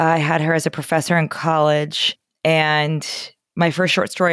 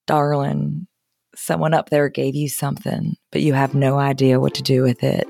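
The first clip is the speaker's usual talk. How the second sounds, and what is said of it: Imitated Southern accent. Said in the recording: “She has a great Southern accent, which I will now try to imitate.”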